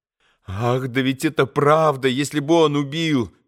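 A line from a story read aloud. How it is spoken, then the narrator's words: Exclaimed. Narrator (Russian): воскликнула Грушенька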